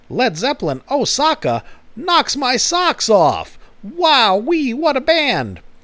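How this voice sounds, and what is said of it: David Lynch impression, not great. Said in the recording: “I keep hearing the voice of David Lynch in my head ... Because he has that voice ... it's not a great David Lynch impression”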